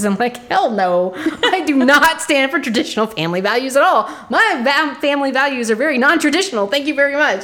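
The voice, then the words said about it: Loud, yelling voice. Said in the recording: “I'm yelling.”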